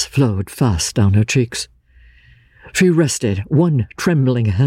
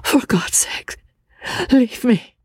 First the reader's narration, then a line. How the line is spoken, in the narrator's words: she said, faintly